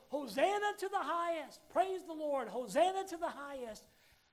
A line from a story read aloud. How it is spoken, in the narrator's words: enthusiastically shouting